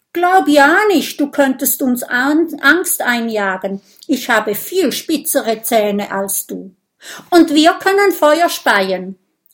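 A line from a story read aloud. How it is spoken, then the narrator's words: Shout. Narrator (German): Oskar ... ruft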